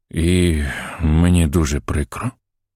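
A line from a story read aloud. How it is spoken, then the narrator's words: Bird sighing. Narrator (Ukrainian): зітхнув птах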